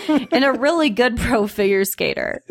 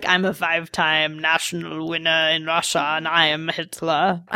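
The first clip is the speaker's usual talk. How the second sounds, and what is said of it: Deep put-on German accent. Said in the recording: “I don't know what accent that was. ... That's German, of course. ... That was just like a deep Arnold Schwarzenegger non-Schwarzenegger.”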